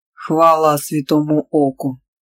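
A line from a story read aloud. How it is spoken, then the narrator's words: Solemn. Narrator (Russian): торжественно проговорил Альказайдер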